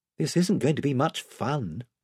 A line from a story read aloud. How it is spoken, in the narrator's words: whispered Edmund to Caspian